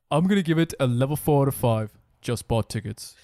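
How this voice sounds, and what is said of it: Imitates another person's voice. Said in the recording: “That wasn't a very good accent ... You held the kind of tone down”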